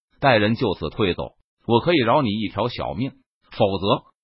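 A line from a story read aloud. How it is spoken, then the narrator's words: Cold, mocking. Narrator (Chinese): 童鹏冷声嘲讽道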